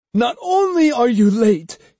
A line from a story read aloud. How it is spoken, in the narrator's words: he shouted